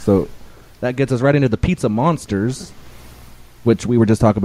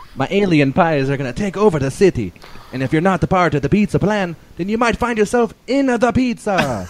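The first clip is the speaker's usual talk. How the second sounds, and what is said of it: Put-on accent drifting into Irish. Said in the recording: “you kind of got into a little bit of like an Irish thing like halfway through ... accent”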